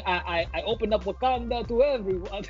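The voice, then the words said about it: Attempted T'Challa accent, poorly done. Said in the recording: “great accent. great accent... Oh god. That was terrible.”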